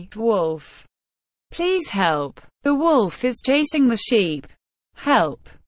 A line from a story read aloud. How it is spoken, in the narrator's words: he saw a real wolf and cried loudly